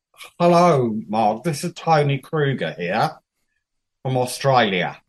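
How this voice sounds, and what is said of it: Decent put-on Australian accent. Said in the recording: “You're not doing a bad Australian accent”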